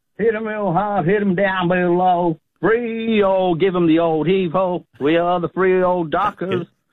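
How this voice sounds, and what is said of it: Singing in put-on American accent. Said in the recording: “What did you put on the American accent there for that?”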